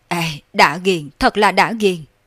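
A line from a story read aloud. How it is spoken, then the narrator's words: Exultant loud laughter. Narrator (Vietnamese): Thiết Đồ cua quơ nắm đấm, cười lớn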